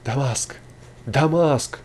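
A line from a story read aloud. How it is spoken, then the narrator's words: Joyful group exclaiming. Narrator (Russian): радостно восклицали путники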